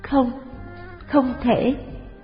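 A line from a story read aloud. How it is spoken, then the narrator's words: Choked, sobbing. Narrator (Vietnamese): nghẹn ngào nói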